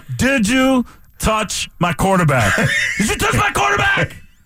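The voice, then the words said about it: John C. Reilly impression. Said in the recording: “if I was doing like a John C. Reilly, where there's not even a ton, he's not even sure what to do with his face at that point”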